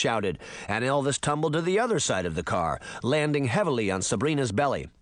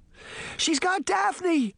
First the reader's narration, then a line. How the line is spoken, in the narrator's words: she gasped